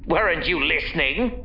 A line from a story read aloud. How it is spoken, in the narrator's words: Roscoe growled